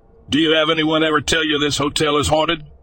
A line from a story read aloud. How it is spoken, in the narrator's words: I laughed nervously